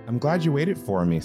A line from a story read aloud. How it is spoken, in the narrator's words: Sakura said, starting to gasp for air